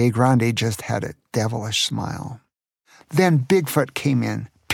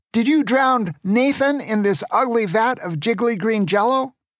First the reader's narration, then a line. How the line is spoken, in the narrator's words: Grandpa shouted at Pierre Grande